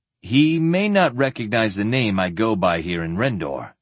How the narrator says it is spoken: Sparhawk replied

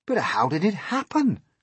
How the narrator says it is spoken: they cried

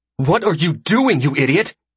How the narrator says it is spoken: She hisses at me

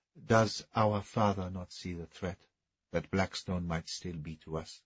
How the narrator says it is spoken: said the Dauphin quietly

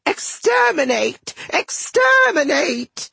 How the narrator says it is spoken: yelling

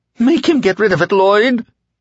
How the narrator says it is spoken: the dark man, who was now the pale man, whined

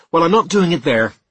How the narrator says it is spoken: I said quickly

